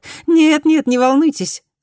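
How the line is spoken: Laughing. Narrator (Russian): Засмеялась Фуми

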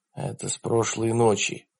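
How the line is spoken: Whisper. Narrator (Russian): прошептал Джад

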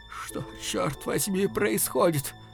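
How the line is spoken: Weakening boy's voice. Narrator (Russian): Мальчишка спросил слабеющим голосом

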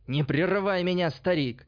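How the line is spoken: Yelled. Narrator (Russian): заорал Альбинос

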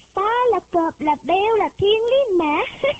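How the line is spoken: Energetic boy shouting. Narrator (Vietnamese): cậu công tử Ngọc Lân lúc nào cũng sung sức, miệng thét to

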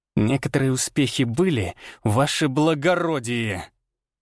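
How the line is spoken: Almost furious hiss. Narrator (Russian): Чуть ли не с яростью прошипел Арий

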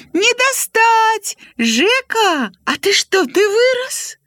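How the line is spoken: Shouting. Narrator (Belarusian): крычала

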